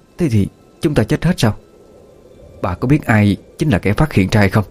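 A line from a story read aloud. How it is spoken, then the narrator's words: Old woman whispering closely. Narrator (Vietnamese): Bà lão ghé sát tai người phụ nữ mà thì thầm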